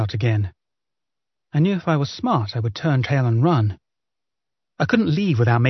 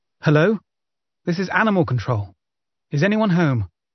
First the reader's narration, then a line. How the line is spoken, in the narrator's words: I called out for the third time